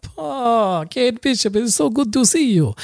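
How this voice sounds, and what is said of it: Put-on Russian accent. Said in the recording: “that's the kind of Russian accent that we're expecting”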